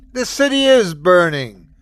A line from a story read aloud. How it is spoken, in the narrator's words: screamed Aesir